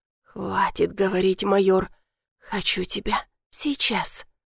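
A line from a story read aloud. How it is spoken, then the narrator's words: Growling. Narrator (Russian): Зарычал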